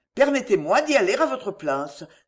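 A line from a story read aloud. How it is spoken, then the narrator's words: Brisk. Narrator (French): dit vivement Mirabel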